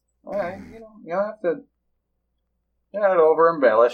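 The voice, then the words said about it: Southern American accent. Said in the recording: “I know what my accent sounds like ... I love that southern flair”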